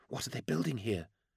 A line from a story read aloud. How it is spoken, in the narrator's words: whispered Tallery